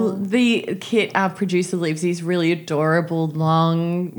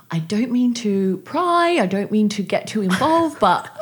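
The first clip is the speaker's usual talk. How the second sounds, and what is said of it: Poor imitation of another person's accent. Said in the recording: “I'm doing a terrible accent here”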